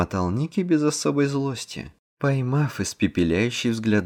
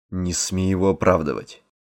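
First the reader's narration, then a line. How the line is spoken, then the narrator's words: Angry, curt. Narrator (Russian): Зло бросил Мэтт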